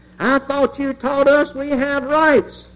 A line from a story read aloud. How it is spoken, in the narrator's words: screamed